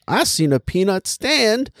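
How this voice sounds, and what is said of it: Cartoon bird character voice. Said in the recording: “That's my impression of the bird... an impression of a racist bird”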